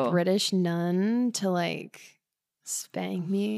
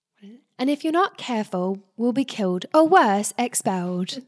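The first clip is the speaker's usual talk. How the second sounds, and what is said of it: British accent character impression. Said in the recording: “I can only do Hermione Granger.”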